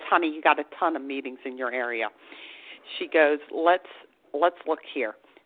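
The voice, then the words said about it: Thick Long Island accent. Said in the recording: “thick Long Island accent”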